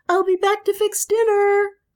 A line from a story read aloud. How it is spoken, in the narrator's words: she shouted joyfully